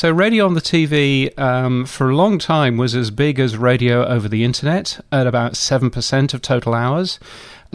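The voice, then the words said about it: British accent. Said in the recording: “you can tell I'm from the UK because I've got this ridiculous accent”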